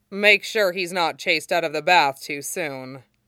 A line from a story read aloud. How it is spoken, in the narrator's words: Long Feng said dryly